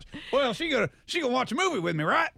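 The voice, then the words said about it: Imitates another person's voice. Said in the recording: “great impression of our boss”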